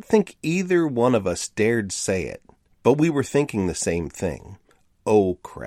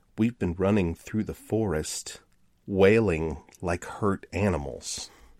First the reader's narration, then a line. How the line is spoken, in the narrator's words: quietly said